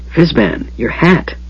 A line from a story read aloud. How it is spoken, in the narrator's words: Tass risked whispering